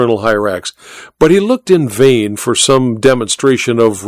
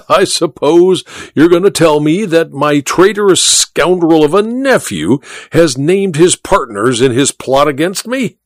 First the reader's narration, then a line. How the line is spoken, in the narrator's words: said the Duke with a harsh laugh